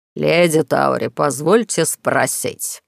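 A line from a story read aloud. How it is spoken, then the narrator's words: Venomous hiss. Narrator (Russian): ядовито прошипел глава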